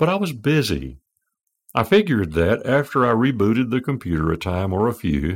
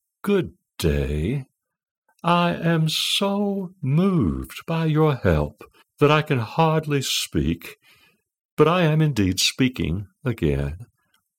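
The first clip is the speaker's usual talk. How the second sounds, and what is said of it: Sweet feminine English accent. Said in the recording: “speak to you with a sweet and feminine English accent.”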